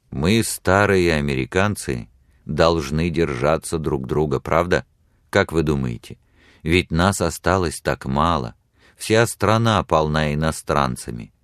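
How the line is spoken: Calm, confident, intimate. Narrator (Russian): он говорил спокойно, уверенно и вместе с тем интимно

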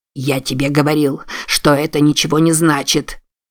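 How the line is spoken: Angry grumble. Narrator (Russian): Сердито буркнул

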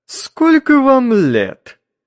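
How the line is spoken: Sharp, slightly singsong question. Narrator (Russian): Резко и немного нараспев спросил он

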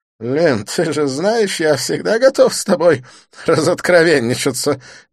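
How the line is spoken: Giggling. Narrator (Russian): не сдержавшись, хихикнул Дидье

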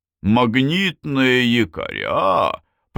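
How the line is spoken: Drawn-out, musing. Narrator (Russian): протянул Кеттер

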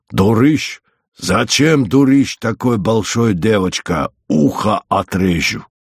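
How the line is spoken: Angry growl. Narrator (Russian): Иногда, если Зося очень шалила около лошадей, он сердито рычал на нее

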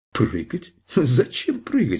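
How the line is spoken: Laughing. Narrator (Russian): сказал он, смеясь

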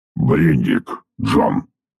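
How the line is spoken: Mechanical voice, boss. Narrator (Russian): произнес механическим голосом начальник Бо

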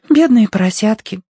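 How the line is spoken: Sighing. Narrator (Russian): вздохнула Агнес

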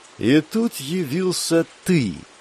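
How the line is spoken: Contemptuous drawl. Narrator (Russian): протянул Йовин, словно плюнул

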